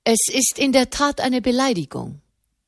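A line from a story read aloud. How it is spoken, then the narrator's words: Plain. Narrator (German): sagte di Dini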